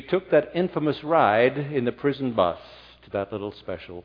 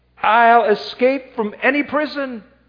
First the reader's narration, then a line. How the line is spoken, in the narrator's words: she screamed in the courtroom at the judge